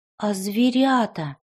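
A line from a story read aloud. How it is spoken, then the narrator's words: Timid child's question. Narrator (Russian): робко спросил мальчик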